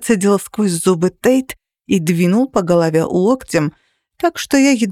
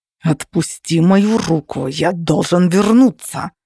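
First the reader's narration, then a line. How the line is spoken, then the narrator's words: Growled. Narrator (Russian): зарычал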